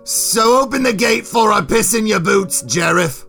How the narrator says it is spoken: Boris yelled playfully

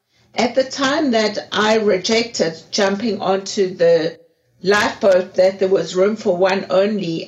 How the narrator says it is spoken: I screamed out to them

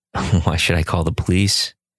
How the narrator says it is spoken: answered the abbot calmly

